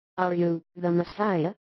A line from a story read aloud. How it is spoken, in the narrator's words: so gently as to enrapture her, she says